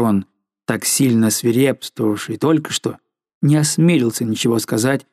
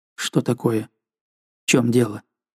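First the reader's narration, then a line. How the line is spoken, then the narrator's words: Agitated quiet question. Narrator (Russian): Взволнованным, но тихим голосом он спросил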